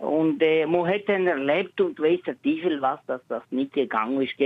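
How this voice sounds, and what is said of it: Swiss German Valais dialect. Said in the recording (German): “Das Walliser Dialekt. ... Walliser. Und aber vermischt mit irgendwie Bündnerisch”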